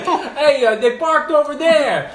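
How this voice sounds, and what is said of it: New York accent imitation. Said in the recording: “in like a New York accent”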